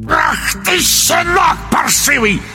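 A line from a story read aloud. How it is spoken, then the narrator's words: Sorcerer's croaking bark. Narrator (Russian): рявкнул колдун весенней жабой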